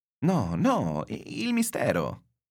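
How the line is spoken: Exclamation. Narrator (Italian): esclamai

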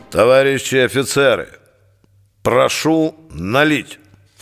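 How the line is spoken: Booming, creaky bass. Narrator (Russian): Начал он своим зычным, скрипучим басом

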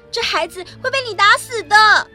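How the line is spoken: Shouting. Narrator (Chinese): 南茜喊

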